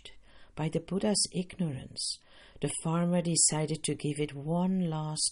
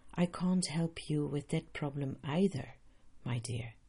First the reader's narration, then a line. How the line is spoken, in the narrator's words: The Buddha calmly replied